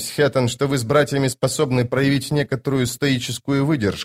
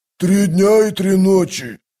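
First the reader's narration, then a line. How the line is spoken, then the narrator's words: Growled. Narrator (Russian): прорычал Кафал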